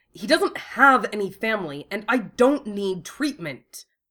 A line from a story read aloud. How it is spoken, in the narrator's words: Wufei snapped